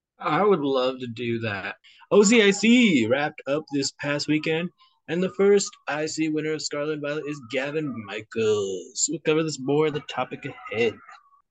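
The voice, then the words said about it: Odd unidentifiable put-on accent. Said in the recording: “I don't know what that accent was.”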